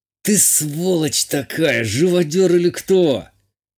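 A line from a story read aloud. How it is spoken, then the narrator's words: Strained through pain. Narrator (Russian): Процедил Игалик, на лбу которого выступил пот, а в ауре всполохи боли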